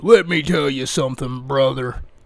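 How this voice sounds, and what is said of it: Hulk Hogan impression. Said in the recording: “his best Hulk Hogan impression. And he does a pretty good one, too.”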